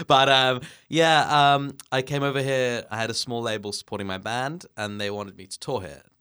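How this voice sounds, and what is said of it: English accent. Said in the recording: “be able to tell from your speaking voice, you're originally from England.”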